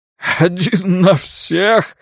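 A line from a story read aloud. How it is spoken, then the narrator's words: Asking with giggling laughter. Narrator (Russian): спрашивает падла и заходится мелким хихикающим смехом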